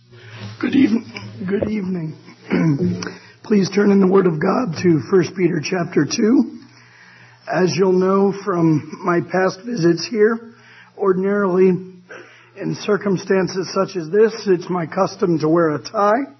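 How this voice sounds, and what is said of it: Strained, weakened voice. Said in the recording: “as you can hear, my voice is not quite up to Luciano Pavarotti status tonight ... give my voice a chance to work unimpeded”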